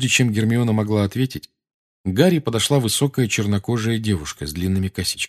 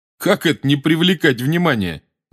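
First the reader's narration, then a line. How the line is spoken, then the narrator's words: Laughing. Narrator (Russian): засмеялся Рон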